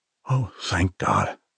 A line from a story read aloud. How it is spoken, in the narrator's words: Armand whispered